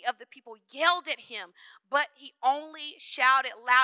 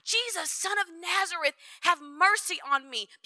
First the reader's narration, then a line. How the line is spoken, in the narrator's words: he began to shout